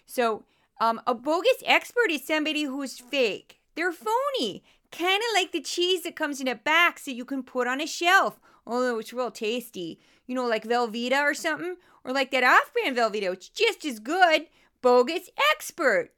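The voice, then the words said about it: Goofy put-on Midwestern accent. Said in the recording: “go into a goofy Midwestern accent when I introduce this section”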